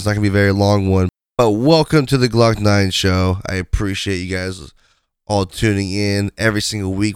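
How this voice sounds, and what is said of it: Raspy, congested voice. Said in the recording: “I have a really raspy voice, sinus infection. I am so sorry for my voice”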